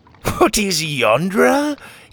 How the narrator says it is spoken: He laughed

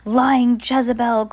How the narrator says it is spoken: cried the judge

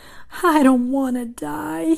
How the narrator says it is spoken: he moaned

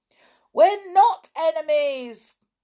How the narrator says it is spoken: yelled Moonface

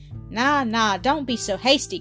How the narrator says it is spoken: cried Jock

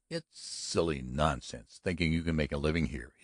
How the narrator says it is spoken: he said irritably

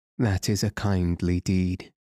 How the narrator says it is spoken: replied Ugly in a sad voice

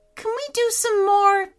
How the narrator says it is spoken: pleaded Aaron

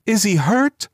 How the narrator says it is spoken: demanded the mother wildly

